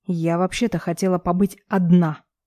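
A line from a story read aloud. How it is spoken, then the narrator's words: Angry reply. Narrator (Russian): Отвечает зло Лика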